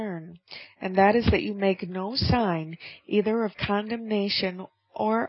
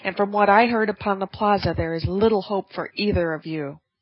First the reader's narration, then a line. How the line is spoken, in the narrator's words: she cried